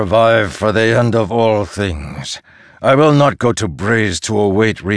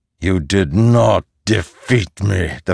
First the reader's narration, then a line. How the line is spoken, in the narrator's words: the fused growled